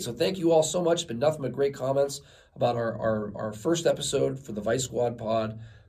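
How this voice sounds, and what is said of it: Strained, hoarse voice. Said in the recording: “losing my voice a little bit here ... I get a lot of yelling”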